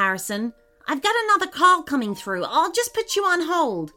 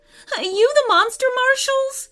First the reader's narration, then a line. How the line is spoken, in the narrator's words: She wailed